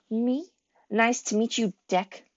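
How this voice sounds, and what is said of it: Mocking imitation of precise accent. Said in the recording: “in an uncanny impersonation of Fitz's precise accent”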